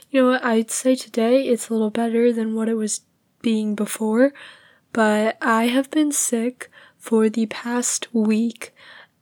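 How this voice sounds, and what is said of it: Weak, fading voice. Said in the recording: “you can probably tell my voice is kind of going away. It's kind of not there”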